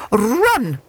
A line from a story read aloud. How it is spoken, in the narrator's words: she shouted